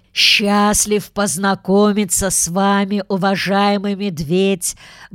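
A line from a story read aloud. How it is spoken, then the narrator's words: Deep bass voice. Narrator (Russian): басил он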